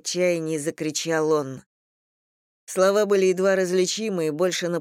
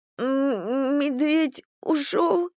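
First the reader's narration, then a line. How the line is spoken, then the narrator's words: Sobbing babble. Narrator (Russian): всхлипывая, пролепетала Кимми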